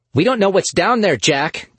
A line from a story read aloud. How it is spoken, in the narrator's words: Gabby snapped